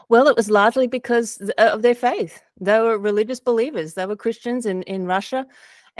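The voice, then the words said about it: Australian accent. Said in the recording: “Australia. You might be able to tell from my accent.”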